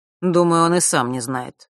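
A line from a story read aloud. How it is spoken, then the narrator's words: Gloomy. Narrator (Russian): мрачно произнес Нортон-старший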